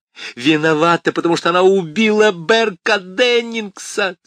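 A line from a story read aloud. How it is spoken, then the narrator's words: Shrieking. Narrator (Russian): завизжала Крис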